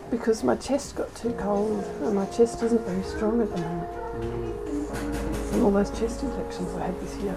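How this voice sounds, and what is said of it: Hoarse, weak, nearly lost voice. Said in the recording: “I now get terrible asthma and lose my voice ... why have you lost your voice?”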